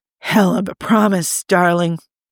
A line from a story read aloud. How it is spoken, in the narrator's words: Tony said hoarsely